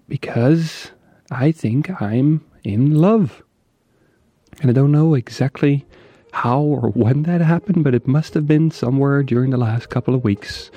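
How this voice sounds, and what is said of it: Near-whisper, soft voice. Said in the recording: “I'm almost whispering”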